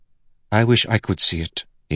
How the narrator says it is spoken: he mumbled

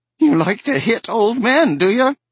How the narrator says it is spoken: Erwin Goldman of the overflowing checkbook cried out shrilly

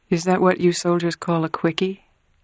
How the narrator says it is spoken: Kay murmured

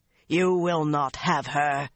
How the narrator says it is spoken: he snarled

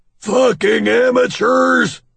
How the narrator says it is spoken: Doug bellows

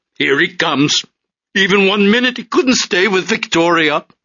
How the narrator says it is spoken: grinning and shouting

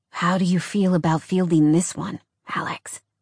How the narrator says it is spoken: Jordan whispered

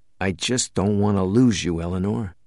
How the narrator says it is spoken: Max said very quietly, with none of his usual bravado

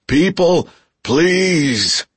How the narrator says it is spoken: he shouted

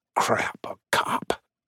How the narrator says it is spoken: He mumbled

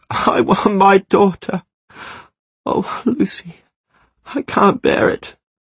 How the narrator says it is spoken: Curled in a ball in her bed, she sobs

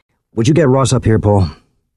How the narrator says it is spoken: Carlin sighed and said

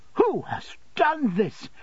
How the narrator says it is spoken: exclaimed Miss Mills

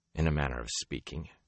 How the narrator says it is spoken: he said dryly

